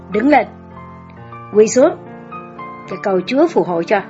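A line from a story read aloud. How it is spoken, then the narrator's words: Loud, threatening. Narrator (Vietnamese): Với một giọng lớn tiếng và đe dọa, bà Nhất nói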